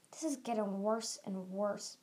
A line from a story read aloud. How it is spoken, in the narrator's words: Byrne hissed through gritted teeth